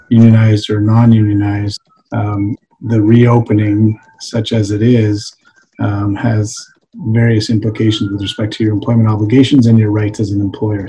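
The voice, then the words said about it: Slightly hoarse voice. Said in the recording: “I'm a little bit hoarse”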